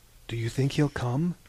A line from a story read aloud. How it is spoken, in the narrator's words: Hesiod whispered to one of the others